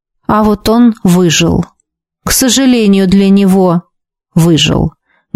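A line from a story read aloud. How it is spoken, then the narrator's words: Muffled reply. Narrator (Russian): глухо отозвался магистр Шарес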